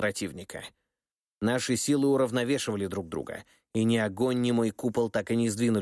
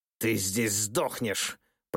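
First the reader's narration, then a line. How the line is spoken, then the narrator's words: Hissed. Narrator (Russian): прошипел он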